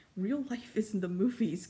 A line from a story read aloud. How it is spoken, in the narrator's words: Caden laughed